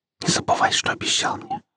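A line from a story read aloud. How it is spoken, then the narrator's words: Whispered. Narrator (Russian): прошептала она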